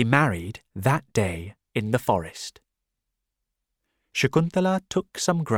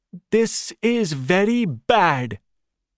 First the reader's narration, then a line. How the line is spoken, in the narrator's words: Durvas shouted, very loudly now